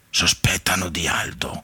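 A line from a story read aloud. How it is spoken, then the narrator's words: Sighed. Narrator (Italian): sospirò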